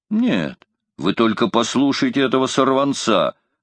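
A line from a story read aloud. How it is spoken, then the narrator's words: Exclamation. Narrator (Russian): воскликнул дядя Квентина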